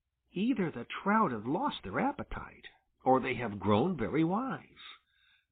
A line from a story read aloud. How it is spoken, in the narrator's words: muttered Farmer Brown's boy